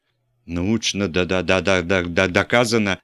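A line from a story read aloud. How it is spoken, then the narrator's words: Stammering reading. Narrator (Russian): запинаясь, читал злосчастный еж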